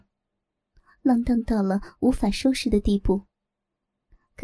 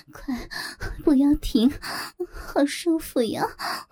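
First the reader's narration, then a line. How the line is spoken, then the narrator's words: Sweet coy seductive woman. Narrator (Chinese): 那声音又甜又腻又媚，娇滴滴的在刘正耳边不停回响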